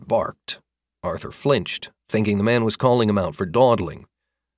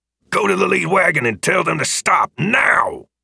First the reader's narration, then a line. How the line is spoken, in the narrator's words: He barked